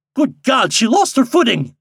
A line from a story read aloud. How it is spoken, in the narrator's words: exclaimed Mr